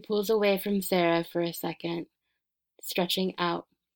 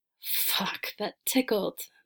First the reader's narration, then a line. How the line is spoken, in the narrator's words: Felicity whines